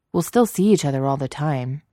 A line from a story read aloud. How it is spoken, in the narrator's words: Anakin said quickly